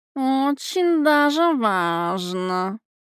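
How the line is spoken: Purring. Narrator (Russian): промурлыкал собеседник

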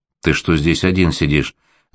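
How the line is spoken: Calm question. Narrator (Russian): спокойно спросила Аня

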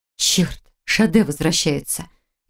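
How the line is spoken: Frightened whisper. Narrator (Russian): испуганно прошептала Хильда

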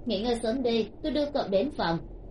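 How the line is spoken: Smiling. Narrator (Vietnamese): Từ Thiếu Khiêm mỉm cười một cái

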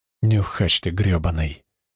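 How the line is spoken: Barely audible panting. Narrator (Russian): еле слышно пропыхтел сбоку Спика

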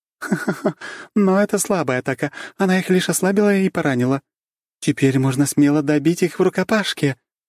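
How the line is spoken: Cheerful laughter. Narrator (Russian): весело смеясь

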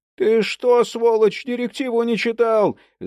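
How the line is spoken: Yelling. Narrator (Russian): завопил

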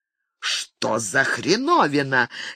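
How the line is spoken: Furious hiss. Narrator (Russian): яростно зашипел Микки

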